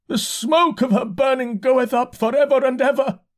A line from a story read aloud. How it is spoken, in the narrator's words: he shouted